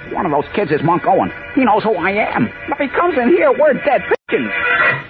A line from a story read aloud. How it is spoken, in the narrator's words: Beanie, recognizing one of the boys through the partly opened door, gasped